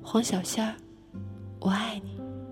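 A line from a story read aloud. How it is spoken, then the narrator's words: Whispering. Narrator (Chinese): 他在我耳边轻声说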